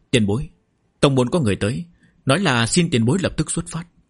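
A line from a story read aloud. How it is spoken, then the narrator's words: Respectful. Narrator (Vietnamese): một người cung kính nói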